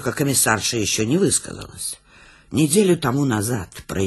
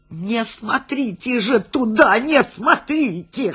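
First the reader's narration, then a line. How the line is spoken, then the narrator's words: Hoarse wheezing. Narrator (Russian): хрипел Гуськин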